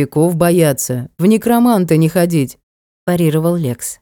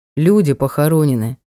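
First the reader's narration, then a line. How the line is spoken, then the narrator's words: Grim reply. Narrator (Russian): мрачно ответил Ник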